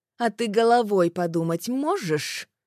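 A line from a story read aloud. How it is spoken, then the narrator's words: Angry question. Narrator (Russian): Зло спрашивает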